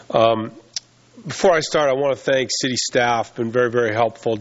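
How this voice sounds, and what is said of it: Voice affected by a cold. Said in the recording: “Excuse my voice. I've got a little bit of a travel cold”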